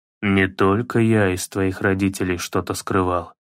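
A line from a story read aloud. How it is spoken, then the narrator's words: Muttering to himself. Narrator (Russian): пробормотал Кратос, обращаясь не столько к сыну, сколько к себе самому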